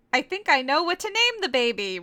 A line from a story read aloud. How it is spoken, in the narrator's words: Reichiru said